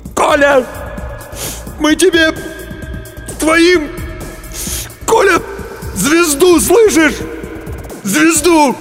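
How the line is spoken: Sobbing shout. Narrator (Russian): Демин всхлипнул, крикнул

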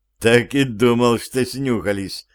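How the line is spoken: Young man laughing. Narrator (Russian): невольно рассмеялся юноша

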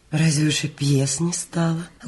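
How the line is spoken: Gently reproachful question. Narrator (Russian): ласково укоризненно спросила Анастасия Ивановна

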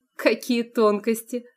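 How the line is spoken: Snort. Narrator (Russian): фыркнула Анфиса

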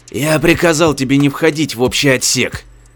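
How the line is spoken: Growling. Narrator (Russian): прорычал Чен

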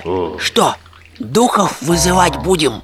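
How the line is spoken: Frightened whisper. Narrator (Russian): испуганно шепнул Штирлиц

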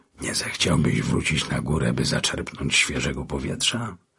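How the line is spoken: Whisper. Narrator (Polish): szepnął

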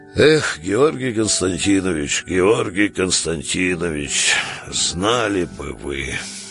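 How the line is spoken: Barely audible gloomy mumble. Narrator (Russian): пробубнил, еле слышно, угрюмых слов

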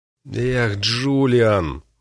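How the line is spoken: Disappointed sigh. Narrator (Russian): разочарованно выдохнул

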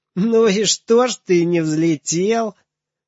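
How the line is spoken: Breathless shout after laughter. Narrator (Russian): Запыхавшийся Женя, хохоча, отсмеявшись, закричал

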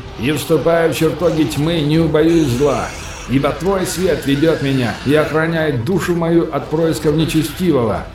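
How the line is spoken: Loud, echoed by warriors. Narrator (Russian): громко произнес Рон, в то время как воины вторили ему словно эхо

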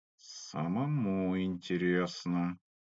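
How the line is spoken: Through gritted teeth. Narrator (Russian): процедил парень

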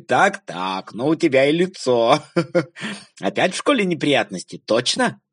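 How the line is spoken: Laughing father. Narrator (Russian): папа засмеялся и сказал

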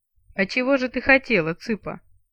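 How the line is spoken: Troll's chuckle. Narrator (Russian): хохотнул тролль

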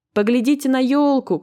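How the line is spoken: Shout. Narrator (Russian): крикнул ей Мумитроль

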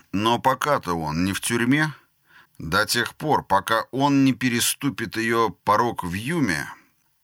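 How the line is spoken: Plain. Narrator (Russian): ответил Скеллан

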